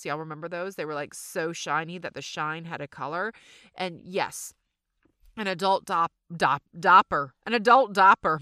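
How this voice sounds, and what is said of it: Southern American accent. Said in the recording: “My southern accent just really came out.”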